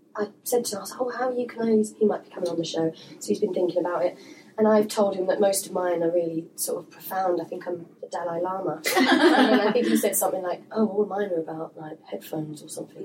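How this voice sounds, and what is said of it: Husky voice. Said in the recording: “Excuse my voice ... It's husky, it's sexy.”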